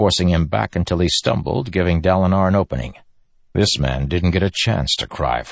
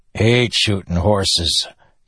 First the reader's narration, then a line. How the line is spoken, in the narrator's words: Yennin grumbled